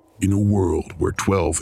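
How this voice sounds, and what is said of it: Dramatic movie trailer voice. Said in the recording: “the best movie trailer voice I can muster”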